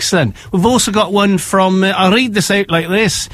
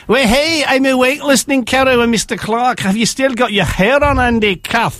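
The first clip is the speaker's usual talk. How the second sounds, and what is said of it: Bad put-on Scottish accent. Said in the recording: “That was the worst Scottish accent I've ever heard.”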